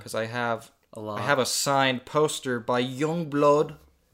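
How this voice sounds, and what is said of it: Put-on accent on a name. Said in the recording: “That was a bad accent ... No, that was pretty good.”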